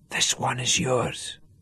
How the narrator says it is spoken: whispered

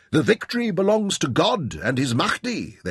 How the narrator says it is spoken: they cried

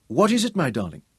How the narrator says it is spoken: she asked anxiously

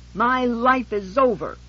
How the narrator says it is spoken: she screamed at me

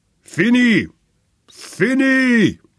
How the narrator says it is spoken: roared a bull voice in German

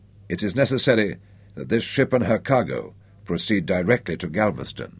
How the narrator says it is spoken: she said softly

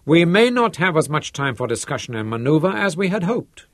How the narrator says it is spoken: Herzog snorted

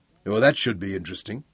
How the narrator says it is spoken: Daniel smiled grimly

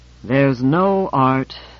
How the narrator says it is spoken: I sighed and repeated

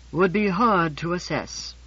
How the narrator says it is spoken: said George with a heavy alcoholic sigh

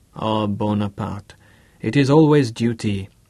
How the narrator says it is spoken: Charmaine sighed with resignation

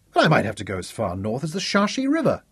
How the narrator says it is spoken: Zuka snapped sarcastically

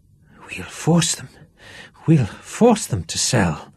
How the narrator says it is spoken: muttered Duff again

